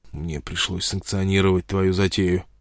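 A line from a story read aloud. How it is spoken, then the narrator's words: Whisper. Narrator (Russian): прошептал он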